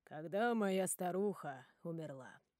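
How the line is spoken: Calm. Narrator (Russian): спокойно говорит Фредди

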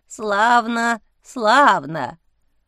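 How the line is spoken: Creaky voice of huge forest spirit. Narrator (Russian): проскрипел здоровенный, похожий на шишку леший

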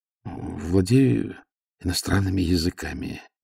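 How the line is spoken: Hesitant listing. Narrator (Russian): неуверенно начал перечислять

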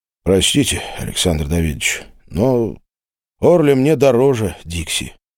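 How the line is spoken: Quiet. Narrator (Russian): тихо произнес Глеб

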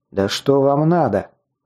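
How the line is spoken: Angry outburst. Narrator (Russian): злобно вырвалось у меня

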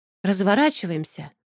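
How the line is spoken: Joyful exhale. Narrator (Russian): обрадованно выдохнула я, испытывая непередаваемые ощущения

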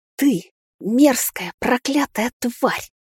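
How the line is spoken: Hissing, spat out. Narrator (Russian): Зашипев, выплюнула Эмигейн

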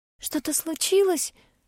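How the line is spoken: Frightened question. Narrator (Russian): спрашивает меня Энси, испуганно

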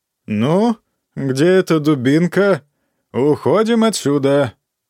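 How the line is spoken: Laughing. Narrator (Russian): все еще, смеясь

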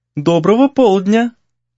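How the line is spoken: Singsong voice. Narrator (Russian): произнесла она певучим голосом

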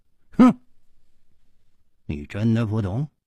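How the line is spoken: Cold. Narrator (Chinese): 冷秋魂冷声说

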